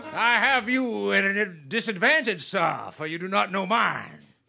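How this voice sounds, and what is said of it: Fancy posh character accent. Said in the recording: “I could tell by his accent that he was fancy. ... Very fancy.”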